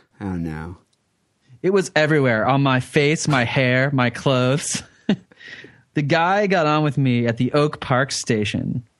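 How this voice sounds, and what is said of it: Valley girl sorority voice. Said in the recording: “like a valley girl?... that's just my impression. That's what I think sorority girls uh, sound like.”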